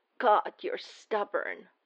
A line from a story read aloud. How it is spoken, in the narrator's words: Clint rasps